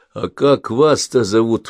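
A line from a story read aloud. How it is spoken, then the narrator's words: Pleading question. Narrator (Russian): умоляющим тоном спросил он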